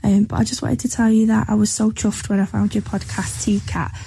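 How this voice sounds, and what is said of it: A distinct regional accent. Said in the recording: “And love that accent. Love it.”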